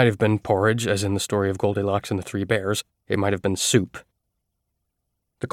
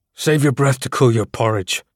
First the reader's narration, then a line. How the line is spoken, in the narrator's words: I growled